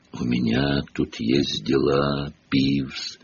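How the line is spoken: Creaky voice. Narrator (Russian): проскрипел Гарри

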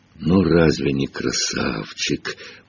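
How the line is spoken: Cooing. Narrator (Russian): проворковал Хагрид

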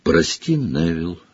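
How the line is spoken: Quiet. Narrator (Russian): негромко сказала она

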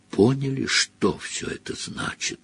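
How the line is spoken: Breathed out. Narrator (Russian): выдохнул он

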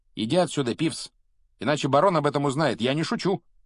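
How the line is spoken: Sharp tone. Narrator (Russian): резким тоном произнес Перси

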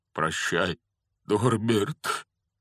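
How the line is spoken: Breaking strained voice. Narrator (Russian): Срывающимся голосом выдавил из себя Хагрид

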